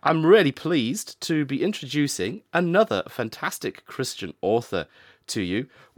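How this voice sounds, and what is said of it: Slightly altered, sore-throat voice. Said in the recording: “my voice is slightly different this week. That's because I'm struggling a little bit with a throat infection whilst doing this recording. So if I'm sounding a little bit different”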